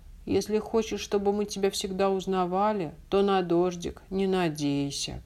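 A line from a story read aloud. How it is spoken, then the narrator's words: Grumbling puppy. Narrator (Russian): проворчал щенок Тявка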